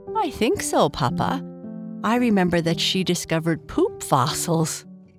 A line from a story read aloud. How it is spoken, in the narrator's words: Bernice said with a laugh